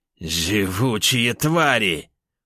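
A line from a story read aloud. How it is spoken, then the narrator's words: Growling under fire. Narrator (Russian): прорычал лис, огонь по которому ни на миг не прекращался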